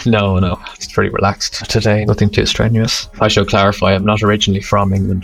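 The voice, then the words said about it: Irish accent. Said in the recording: “you sound Irish to me”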